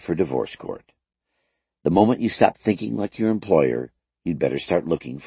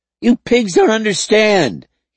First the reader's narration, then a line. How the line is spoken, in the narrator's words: he screamed